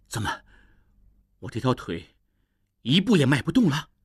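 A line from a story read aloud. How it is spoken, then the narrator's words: Through gritted teeth. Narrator (Chinese): 应济咬牙说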